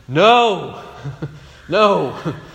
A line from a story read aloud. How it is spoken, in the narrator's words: They shout back